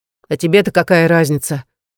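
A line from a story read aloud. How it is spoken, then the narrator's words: Snapping. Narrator (Russian): огрызнулся он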